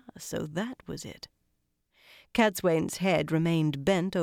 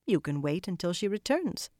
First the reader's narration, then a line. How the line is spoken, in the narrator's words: she said calmly